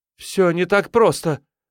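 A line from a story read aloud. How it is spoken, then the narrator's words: Exclamation. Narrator (Russian): воскликнула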